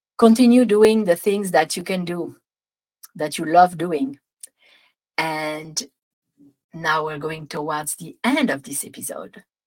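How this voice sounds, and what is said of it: Strong French accent. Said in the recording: “That was a lot of French accent there.”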